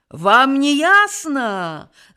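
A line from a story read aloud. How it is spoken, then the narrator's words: Roaring. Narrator (Belarusian): зароў Аўгі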